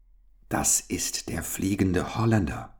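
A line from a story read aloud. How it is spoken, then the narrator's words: Ghostly whisper. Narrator (German): flüsterte endlich Gustav, fast mit geisterhafter Stimme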